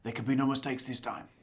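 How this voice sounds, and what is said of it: Imitates a movie character's voice. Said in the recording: “That's my Jango Fett impersonation.”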